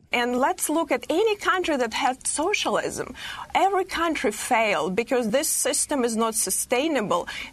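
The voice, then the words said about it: Woman with a foreign accent. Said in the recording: “a woman with that accent”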